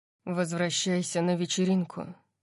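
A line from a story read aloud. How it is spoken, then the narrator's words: Sighing. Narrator (Russian): вздохнул он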